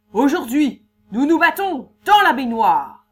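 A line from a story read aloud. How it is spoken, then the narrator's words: Page exclaiming. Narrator (French): le page s'écrie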